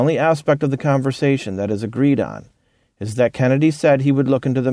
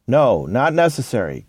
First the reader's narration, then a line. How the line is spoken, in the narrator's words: Katzenbach replied